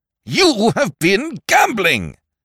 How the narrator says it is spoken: boomed Sir Thomas

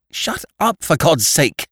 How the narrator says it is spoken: cried Annie fiercely, as if in torture

